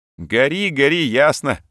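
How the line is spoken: Loud laughter. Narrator (Russian): расхохотался Ткачук

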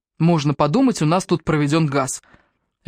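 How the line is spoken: Barking. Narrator (Russian): рявкнул на него Раф

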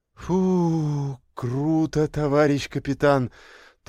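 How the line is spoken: Relieved exhale. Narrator (Russian): Тоже с облегчением выдохнула Марина

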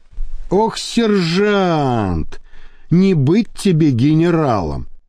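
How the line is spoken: Heavy sigh. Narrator (Russian): тяжело вздохнул Михаил

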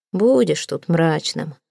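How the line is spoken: Tired. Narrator (Russian): сказал Таузенд устало

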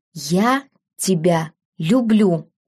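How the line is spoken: Breathed out softly. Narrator (Russian): выдохнул он

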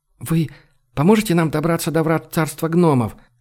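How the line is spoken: Hurried question. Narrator (Russian): торопливо спросила она

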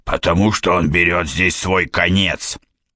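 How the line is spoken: Hoarse smoker's voice, from behind. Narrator (Russian): с заднего сиденья доносится хриплый, прокуренный голос

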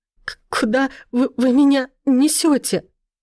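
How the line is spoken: Words broken by sobs. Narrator (Russian): Слова перемежаются всхлипами

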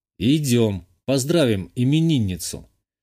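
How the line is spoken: Calm. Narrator (Russian): Спокойно произношу

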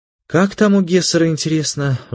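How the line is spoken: Sigh. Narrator (Russian): вздохнула Ольга

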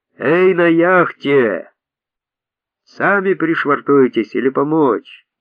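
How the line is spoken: Thunderous shout. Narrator (Russian): прокричал громовым голосом

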